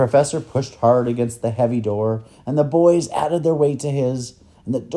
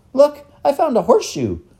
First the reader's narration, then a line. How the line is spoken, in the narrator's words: Lindy cried excitedly